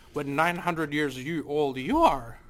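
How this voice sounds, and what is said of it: Yoda character voice impression. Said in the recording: “Wow, really good impression. ... Terrible. ... No, it was good. It was good. ... just let Yoda fly ... I'm like chunky Frank Oz.”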